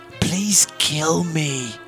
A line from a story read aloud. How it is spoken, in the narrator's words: sighed Happy weakly before exploding into a racking coughing fit